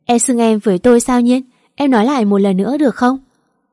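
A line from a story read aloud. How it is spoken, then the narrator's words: Loud laughter. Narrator (Vietnamese): Anh cười lớn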